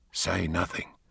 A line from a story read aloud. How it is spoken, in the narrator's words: whispered in her ear